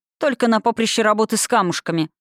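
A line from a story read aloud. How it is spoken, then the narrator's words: Male snort. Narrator (Russian): фыркнул он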